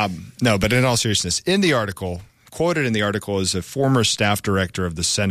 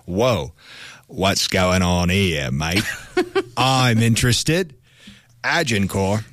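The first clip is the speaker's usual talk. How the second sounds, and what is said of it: Put-on Australian accent. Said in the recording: “That's Australian ... You don't sound British.”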